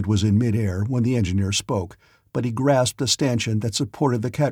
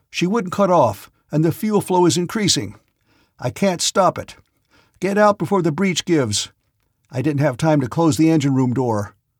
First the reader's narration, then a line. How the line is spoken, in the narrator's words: called out as he came